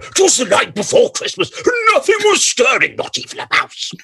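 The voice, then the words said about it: Imitates another person's voice. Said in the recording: “Brian Blessed did his version of 'Twas the Night Before Christmas ... it was all up and down and up and down”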